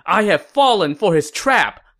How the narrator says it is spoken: Sima Yi exclaimed in shock

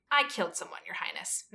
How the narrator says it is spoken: Magnus replied harshly

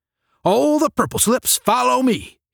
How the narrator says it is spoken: roared

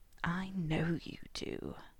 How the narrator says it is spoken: Malfoy rasped

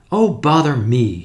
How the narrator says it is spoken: said Tuppence impatiently

